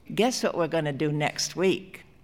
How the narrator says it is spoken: Freddie said in his chirping voice

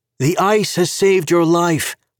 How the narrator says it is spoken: Alistair called out

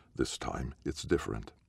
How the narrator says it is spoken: He says gently

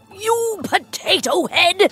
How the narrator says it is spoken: shouted the old cook

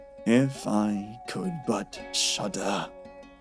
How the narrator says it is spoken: said quite sadly

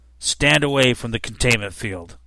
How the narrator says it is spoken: one of them growled

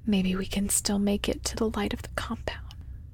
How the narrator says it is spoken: he whispers

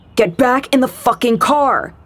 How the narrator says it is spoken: the guy was shouting now

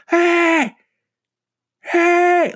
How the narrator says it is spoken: what sounded like a teenage boy yelling

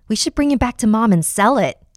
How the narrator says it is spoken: Jamie exclaimed

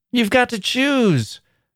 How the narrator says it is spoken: cried the girls

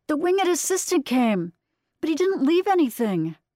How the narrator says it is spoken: Estella shouting

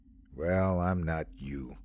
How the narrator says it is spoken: Sandy answered evenly

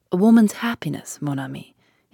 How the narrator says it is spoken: he said gravely

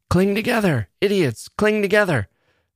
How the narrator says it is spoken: the captain yelled

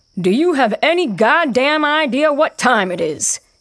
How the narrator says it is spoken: shouts down

